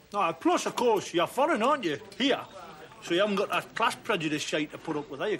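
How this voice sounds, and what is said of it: Strong, hard-to-understand regional accent. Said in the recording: “most people can't understand the tossing word you say ... I might have a slight accent”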